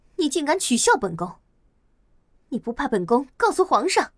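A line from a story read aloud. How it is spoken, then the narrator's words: Furious. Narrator (Chinese): 蓝静怡不禁大怒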